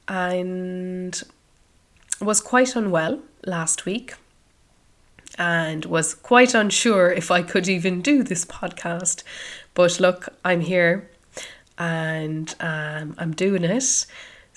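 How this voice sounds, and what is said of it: Croaky voice. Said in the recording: “you may recognise my voice is a little different ... I've actually had a cold ... you'll just have a little bit of a croaky voice today”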